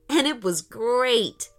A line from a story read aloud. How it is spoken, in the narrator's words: laughed Aiden